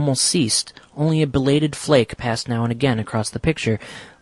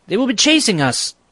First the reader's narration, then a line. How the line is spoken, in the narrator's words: cried the leader